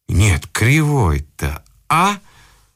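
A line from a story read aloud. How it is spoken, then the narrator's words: Angry exclamation. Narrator (Russian): злобно воскликнул кто-то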